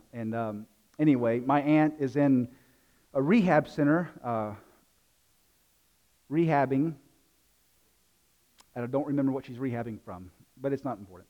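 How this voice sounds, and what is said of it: Southern US accent, South Carolina. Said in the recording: “as you can tell from the accent, I'm not from around these parts. I'm from South Carolina.”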